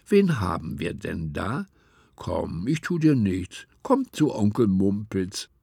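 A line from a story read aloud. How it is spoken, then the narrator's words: Gentle voice. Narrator (German): sagte er mit sanfter Stimme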